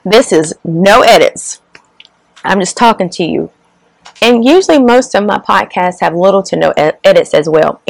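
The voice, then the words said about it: Hoarse, weakening voice. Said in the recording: “my voice is going out.”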